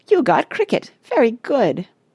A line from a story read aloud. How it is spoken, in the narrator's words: He was laughing delightedly